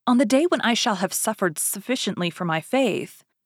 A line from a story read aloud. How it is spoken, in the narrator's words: cried with a feigned exultation